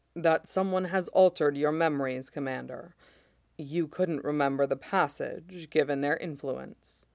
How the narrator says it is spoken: Mace says quietly

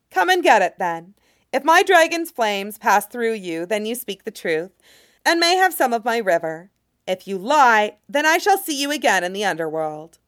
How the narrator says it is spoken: The child goddess sighs and says

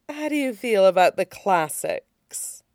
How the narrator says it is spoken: It purred

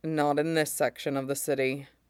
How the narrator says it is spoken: Mace says grimly

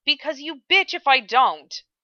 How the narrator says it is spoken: Ed snapped, his tenuous grip on his temper gone

